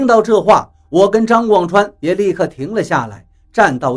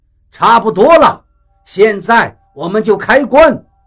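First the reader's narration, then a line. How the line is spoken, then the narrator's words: Shouting. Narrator (Chinese): 比利喊道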